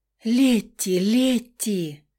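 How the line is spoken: Joyful sobbing. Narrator (Russian): всхлипывала сестра уже совсем по-другому, будто от радости

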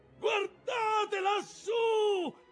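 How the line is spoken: Shouted. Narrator (Italian): gridò Starbuck

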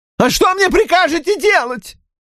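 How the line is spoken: Shrill voice. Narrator (Russian): спросил он пронзительным голосом

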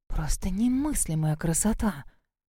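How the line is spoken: Breathless, awed muttering. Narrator (Russian): Диана, у которой дух захватывало от буйства красок и видов, бормотала себе под нос

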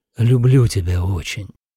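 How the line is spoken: Breathed out. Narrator (Russian): выдохнул Лех

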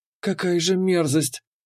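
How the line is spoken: Barely audible whisper. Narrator (Russian): еле слышно прошептала Кира

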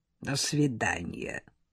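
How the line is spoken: Grumbled into sink. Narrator (Russian): проворчала Тамара Федоровна в мойку

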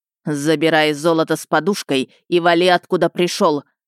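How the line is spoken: Growling. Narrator (Russian): рыкнул Ищейка

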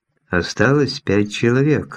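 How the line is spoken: Even voice. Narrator (Russian): ровным голосом напомнил Осипов

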